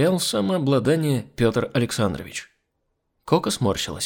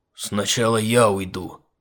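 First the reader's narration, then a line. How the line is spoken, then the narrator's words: Angry. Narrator (Russian): сердито заявил профессор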